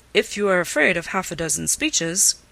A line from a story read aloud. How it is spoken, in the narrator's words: cried Mr